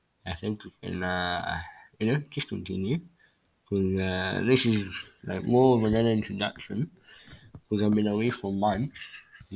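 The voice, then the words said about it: Congested, sick-sounding voice. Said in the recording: “If you don't hear my voice well, excuse me, I have a cold”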